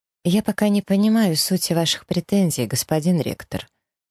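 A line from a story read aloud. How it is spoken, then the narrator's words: Cold, exaggeratedly polite. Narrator (Russian): произношу холодным и нарочито вежливым тоном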